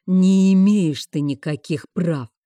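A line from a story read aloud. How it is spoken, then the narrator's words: Growl. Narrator (Russian): рыкнул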